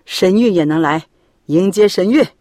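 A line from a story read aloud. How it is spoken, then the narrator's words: Laughing. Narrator (Chinese): 副校笑着说道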